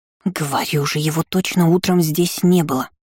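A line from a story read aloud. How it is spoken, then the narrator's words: Continued hissing. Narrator (Russian): Продолжила шипеть кошечка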